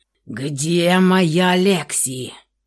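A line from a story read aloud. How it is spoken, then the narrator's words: Growl. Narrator (Russian): прорычал он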